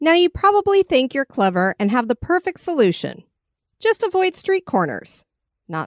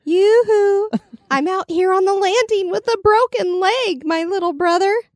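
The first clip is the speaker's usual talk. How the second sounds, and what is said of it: Old aunt voice calling in distress. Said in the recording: “That was a great impression ... I'm thinking of some Aunt Edna or something ... Waving your little handkerchief.”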